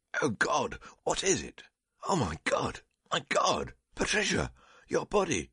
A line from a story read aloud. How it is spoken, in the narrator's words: Awaking as from death, he suddenly cried out